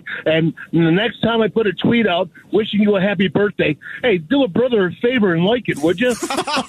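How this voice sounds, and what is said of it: Imitates another person's voice. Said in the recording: “That was amazing hearing a Wolf do an impression of Wolf ... That was ... doing that”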